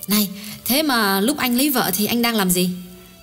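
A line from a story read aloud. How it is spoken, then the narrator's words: Smiling voice. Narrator (Vietnamese): Phùng Thị Lý mỉm cười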